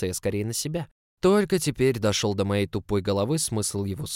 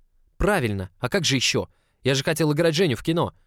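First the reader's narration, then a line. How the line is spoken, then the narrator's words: Resentful snapping retort. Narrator (Russian): Огрызнулся в ответ, потому что не смог сдержать свою обиду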